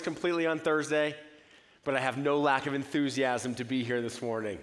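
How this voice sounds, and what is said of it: Raspy, hoarse voice. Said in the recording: “As you can tell, I have a little bit of a raspy voice. I lost my voice”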